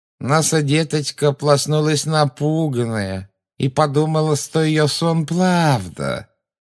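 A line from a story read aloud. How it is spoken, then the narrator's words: Mocking nasal baby talk. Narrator (Russian): Жутко прогнусавила женщина, издевательски подражая детскому выговору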